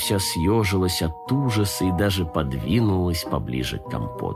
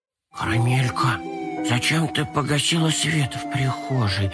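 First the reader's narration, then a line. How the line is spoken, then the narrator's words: Whisper. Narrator (Russian): зашептал Компот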